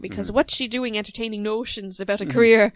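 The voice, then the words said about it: Put-on Irish accent. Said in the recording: “That was a brilliant Irish accent.”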